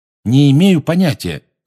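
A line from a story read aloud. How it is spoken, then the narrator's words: Loud. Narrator (Russian): громко сказал Гарри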